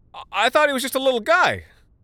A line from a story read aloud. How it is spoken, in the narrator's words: I said, and you know how loud and screechy I get when I feel threatened